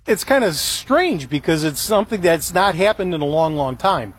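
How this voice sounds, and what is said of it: Chicago accent. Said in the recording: “He's got that Chicago accent”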